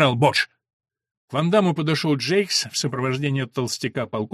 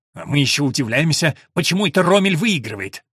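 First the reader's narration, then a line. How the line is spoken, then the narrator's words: Through gritted teeth. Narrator (Russian): процедил Ван Дам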